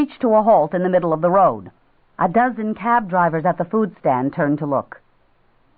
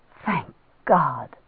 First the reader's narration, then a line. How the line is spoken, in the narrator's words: Jeannie breathed